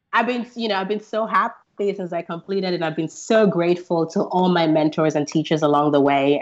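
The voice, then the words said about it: Slightly weird-sounding voice. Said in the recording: “how my voice sounds a little weird. I've had three summer colds.”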